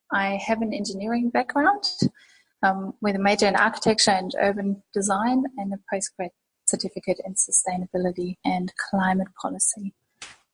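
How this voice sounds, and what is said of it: Slight German accent. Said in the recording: “I have a bit of an accent and I am indeed not from Australia. I was born and raised in Germany”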